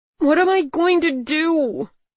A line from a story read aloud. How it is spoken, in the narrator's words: I wailed